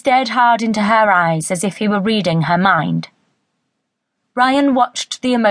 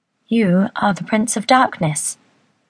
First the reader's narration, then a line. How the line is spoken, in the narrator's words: she murmured